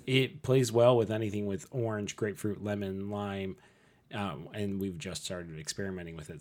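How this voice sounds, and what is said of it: Weird-sounding voice, sore throat. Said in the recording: “maybe it will taste differently when I like have my voice back ... This is going to be really a weird sounding one ... my throat feels weird. Well, my voice is kind of weird ... That'll save my voice a little bit. Maybe I'll be able to speak tomorrow.”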